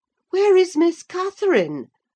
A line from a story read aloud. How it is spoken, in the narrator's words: cried, hurriedly